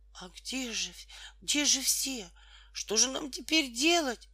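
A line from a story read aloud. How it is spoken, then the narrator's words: Desperate voice. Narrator (Russian): отчаянным голосом сказала Тома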